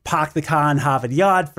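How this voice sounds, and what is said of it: Stereotypical Boston accent, dropped R's. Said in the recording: “there are a few American accents that drop the R too, like the stereotypical Boston”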